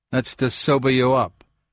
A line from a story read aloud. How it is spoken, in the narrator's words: declared calmly